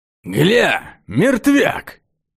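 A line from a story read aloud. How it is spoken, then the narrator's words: Rough husky voice. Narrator (Russian): Голос был грубый, с хрипотцой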